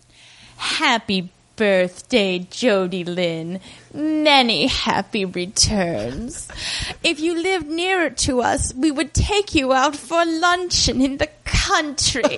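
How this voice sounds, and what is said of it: Put-on character voice. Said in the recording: “in my McGee voice”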